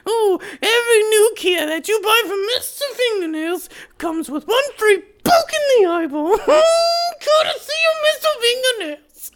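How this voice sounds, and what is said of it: Jar Jar Binks-like character voice. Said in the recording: “I almost went a little Jar Jar Binks on that one. I'm trying to really keep the Jar Jar Binks down to a medium.”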